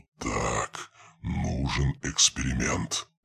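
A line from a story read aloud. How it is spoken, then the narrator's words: Mutter with sudden animation. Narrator (Russian): пробормотал, и в его голосе послышалось внезапное оживление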